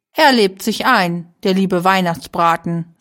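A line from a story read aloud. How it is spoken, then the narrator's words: Plain, man. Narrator (German): sagte der Mann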